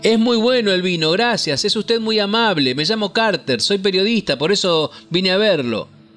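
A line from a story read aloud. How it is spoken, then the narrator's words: Shouted. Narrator (Spanish): Carter gritó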